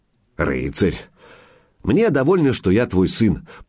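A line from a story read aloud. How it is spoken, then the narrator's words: Grumbling. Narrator (Russian): проворчал Илья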